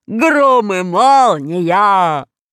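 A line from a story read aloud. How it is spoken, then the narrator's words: Agitated giant shouting. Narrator (Russian): кричал, волнуясь, гигант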